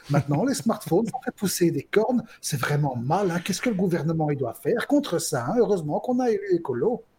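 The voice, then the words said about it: Put-on Brussels accent. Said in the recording (French): “accent bruxellois”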